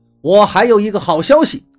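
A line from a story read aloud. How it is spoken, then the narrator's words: Loud. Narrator (Chinese): 杨泽万大声说道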